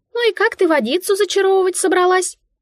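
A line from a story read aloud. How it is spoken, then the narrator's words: Mouse squeak. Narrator (Russian): пискнула мышка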